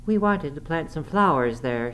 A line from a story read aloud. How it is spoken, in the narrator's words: she cried